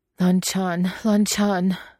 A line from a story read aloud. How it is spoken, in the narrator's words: Wei Wuxian gasps